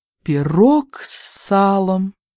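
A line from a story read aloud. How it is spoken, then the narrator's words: Exclaiming through covered face. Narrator (Russian): воскликнула Филлис Выверн, закрывая лицо ладонями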